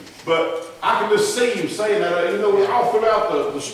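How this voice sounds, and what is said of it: Usual voice. Nothing is said of it.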